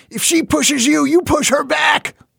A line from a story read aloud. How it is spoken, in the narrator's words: he shouted once